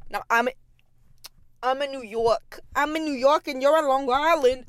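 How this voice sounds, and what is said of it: Poor put-on New York accent. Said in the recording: “I'm bad at accents”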